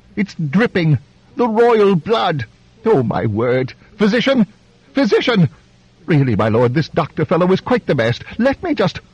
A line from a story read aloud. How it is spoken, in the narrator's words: the Duke cried